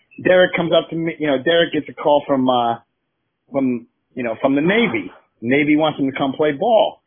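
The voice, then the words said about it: Put-on New York accent. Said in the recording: “he's like from New York. He's got that accent.”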